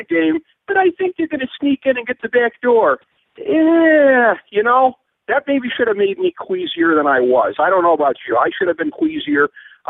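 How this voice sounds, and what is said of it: Mocking imitation of another person's voice. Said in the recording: “I hope I don't sound like that when I talk ... That voice you did ... that sounded pretty horrible ... generic making fun of people voices”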